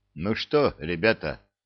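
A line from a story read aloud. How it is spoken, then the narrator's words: Gloomy question. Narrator (Russian): спросил Витька мрачно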